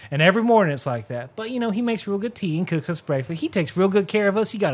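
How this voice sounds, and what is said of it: Usual voice. Nothing is said of it.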